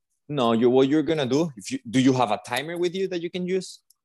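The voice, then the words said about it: Spanish accent. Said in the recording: “that sexy Spanish accent of yours”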